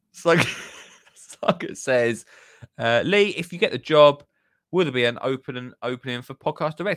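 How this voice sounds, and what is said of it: Essex accent. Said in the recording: “nobody north of Brum can understand an Essex accent ... It's just kind of acclimatized to my voice.”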